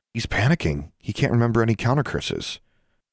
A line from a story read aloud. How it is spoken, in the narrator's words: Sonia whispered